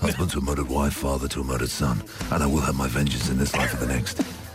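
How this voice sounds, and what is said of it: Russell Crowe impression. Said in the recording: “Hey, I do good impressions. Hey, have you heard my Russell Crowe?”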